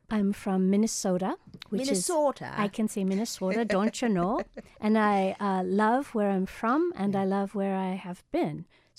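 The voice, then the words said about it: Minnesota American accent. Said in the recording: “I detect an accent.”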